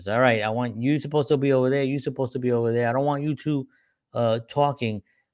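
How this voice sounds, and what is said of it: Put-on accent, bossy voice. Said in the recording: “I don't know why I just went into that accent.”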